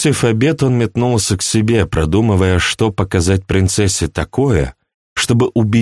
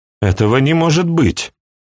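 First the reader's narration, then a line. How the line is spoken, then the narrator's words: Exclamation. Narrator (Russian): воскликнула Флоранс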